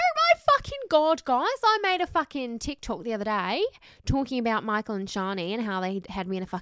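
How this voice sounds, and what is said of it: Usual voice. Nothing is said of it.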